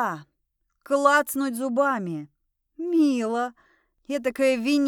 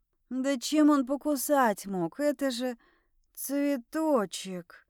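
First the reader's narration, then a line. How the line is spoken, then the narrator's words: Hoarse. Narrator (Russian): Хрипло закончила я говорить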